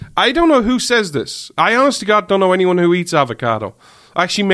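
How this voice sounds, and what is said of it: Usual voice. Nothing is said of it.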